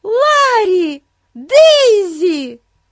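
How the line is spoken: Joyful shout. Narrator (Russian): радостно закричала Бетси

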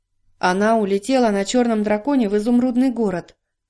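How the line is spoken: Plain. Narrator (Russian): ответил дровосек

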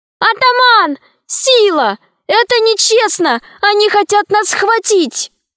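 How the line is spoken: Shouting. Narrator (Russian): Алиса закричала

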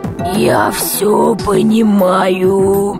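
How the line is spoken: Creaky, rusty voice. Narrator (Russian): Проскрипел космонавт, словно его голос заржавел

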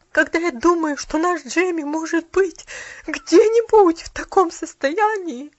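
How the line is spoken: Broken sobbing. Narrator (Russian): Послышались прерывистые всхлипывания

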